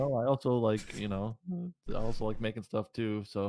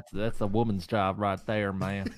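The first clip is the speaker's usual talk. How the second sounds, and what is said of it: Put-on Southern twang accent. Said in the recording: “The accent, though. ... they have to sound Southern twang. ... You have to be Southern.”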